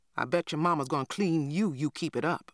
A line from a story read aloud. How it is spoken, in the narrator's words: I grumbled